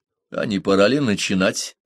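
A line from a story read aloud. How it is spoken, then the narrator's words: Dry remark. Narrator (Russian): сухо заметил Парсел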